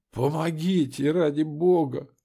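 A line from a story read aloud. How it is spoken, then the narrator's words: Wheezed, hoarse plea. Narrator (Russian): Просипела она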